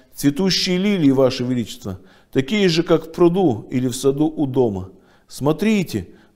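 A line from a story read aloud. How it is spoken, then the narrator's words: Exclamation. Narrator (Russian): воскликнула Люси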